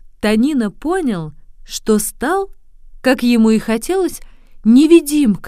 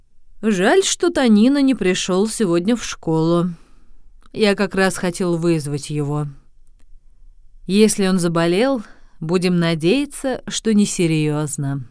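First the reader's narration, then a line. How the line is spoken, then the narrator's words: Sighing. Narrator (Russian): учитель, вздохнув, сказал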